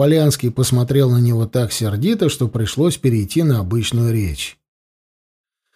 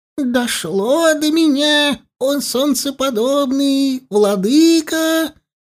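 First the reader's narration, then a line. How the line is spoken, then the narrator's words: Squeaky voice. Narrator (Russian): писклявым голосом начал Данилов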